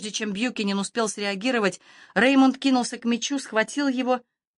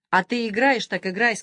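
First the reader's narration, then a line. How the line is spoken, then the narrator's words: Plain. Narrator (Russian): сказал Реймонд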